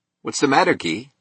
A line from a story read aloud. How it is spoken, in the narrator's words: said Keating, his voice innocent